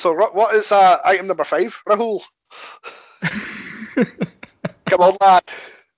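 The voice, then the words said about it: Put-on Scottish accent. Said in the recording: “this is my Scottish accent”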